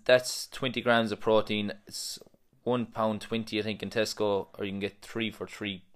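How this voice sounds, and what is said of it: Speaks with a noticeable accent. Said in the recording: “in case you can't understand my accent”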